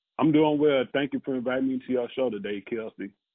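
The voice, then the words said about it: Southern US accent. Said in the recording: “when I hear your accent, you remind me so much of home because, you know, my family is from Mississippi and Louisiana ... I love the South.”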